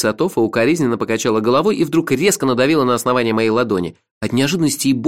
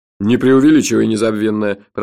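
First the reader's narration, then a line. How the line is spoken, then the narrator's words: Grumbled. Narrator (Russian): проворчал тот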